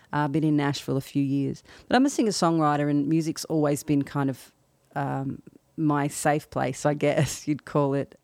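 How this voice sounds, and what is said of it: Australian accent. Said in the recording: “I'm an Australian, as you can probably tell by my accent.”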